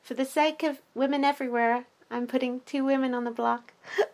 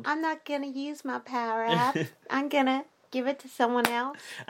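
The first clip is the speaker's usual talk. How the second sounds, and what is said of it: Imitates another person's voice. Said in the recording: “that is the best impression you'll hear this season ... I'm surprised that came out of me so well.”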